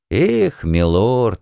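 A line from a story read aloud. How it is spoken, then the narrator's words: Group sigh. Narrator (Russian): дружно вздохнули все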